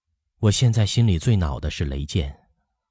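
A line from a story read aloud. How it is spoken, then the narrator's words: Sighing, wistful. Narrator (Chinese): 乔松吁了一口气，感慨地说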